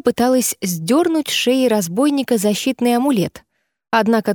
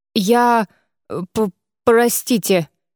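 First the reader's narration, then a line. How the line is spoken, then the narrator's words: Stammering babble. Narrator (Russian): заикаясь, пролепетал он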